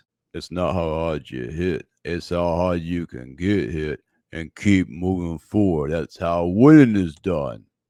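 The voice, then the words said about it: Imperfect Rocky Balboa impression. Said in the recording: “Rocky Balboa said it best ... Maybe it wasn't the best impersonation”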